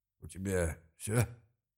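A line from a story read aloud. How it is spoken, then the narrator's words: Suddenly bored tone. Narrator (Russian): Резко поскучневшим тоном спросил Мелисдраго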